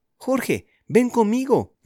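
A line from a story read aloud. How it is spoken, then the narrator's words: Shouting. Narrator (Spanish): gritó Julián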